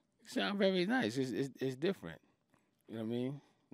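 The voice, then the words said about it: New York accent. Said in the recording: “You have a dope accent ... New York”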